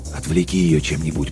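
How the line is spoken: Whisper into microphone. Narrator (Russian): прошептал он в микрофон

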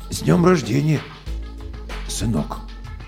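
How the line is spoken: Strange, hoarse voice. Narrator (Russian): ответил чужим, хриплым голосом

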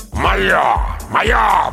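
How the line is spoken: Growl. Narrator (Russian): прорычал он

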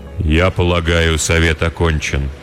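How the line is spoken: Remarkably even, elder voice. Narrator (Russian): удивительно ровным голосом произнес старший кудесник

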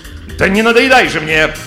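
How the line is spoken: Shouted. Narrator (Russian): крикнула герцогиня

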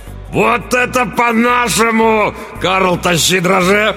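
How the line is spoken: Roaring. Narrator (Russian): Взревел тот

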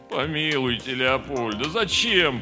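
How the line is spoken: Moaning plea. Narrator (Russian): простонал Слава

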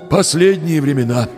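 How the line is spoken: Sighing. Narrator (Russian): вздохнул хозяин

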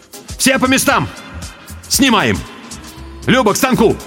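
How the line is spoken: Shouting. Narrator (Russian): крикнул

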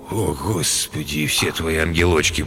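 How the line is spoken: Groaning. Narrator (Russian): простонал Галеску

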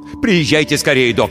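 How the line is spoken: Barked. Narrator (Russian): рявкнул я

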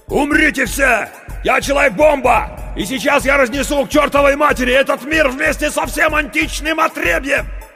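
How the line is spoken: Shouting. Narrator (Russian): Круз закричал

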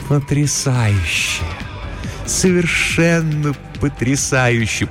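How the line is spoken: Deep purr in ear. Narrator (Russian): промурлыкала она ему в ухо, глубокий тембр ее голоса

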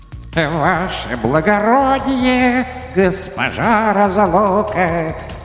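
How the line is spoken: Sing-song greeting. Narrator (Russian): Нараспев приветствовала беда

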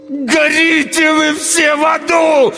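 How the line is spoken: Howled. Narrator (Russian): Взвыл я

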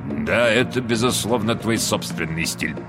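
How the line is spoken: Mutter. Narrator (Russian): пробормотал сэр Вальтер

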